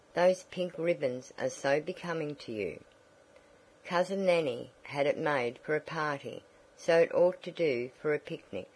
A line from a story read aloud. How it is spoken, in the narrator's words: Tavia said